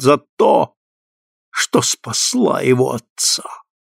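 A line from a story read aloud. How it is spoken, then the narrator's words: Near hiss. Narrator (Russian): Она почти прошипела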